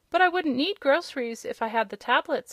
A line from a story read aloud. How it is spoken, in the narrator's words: said Rob, laughing